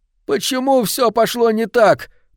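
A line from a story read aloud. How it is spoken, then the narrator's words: Groaning. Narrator (Russian): простонал Финчли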